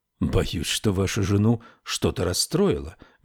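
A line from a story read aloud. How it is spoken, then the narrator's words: Soft, gentle. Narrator (Russian): мягко сказал он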